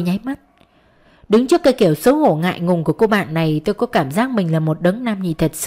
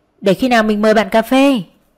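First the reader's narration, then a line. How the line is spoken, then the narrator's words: Embarrassed, louder repeat. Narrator (Vietnamese): Xấu hổ đỏ mặt, cô lặp lại to tiếng hơn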